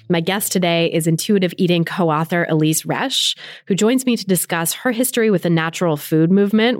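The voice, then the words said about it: Slightly scratchy voice. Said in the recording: “I'm a little under the weather today, so my voice might be a little scratchy”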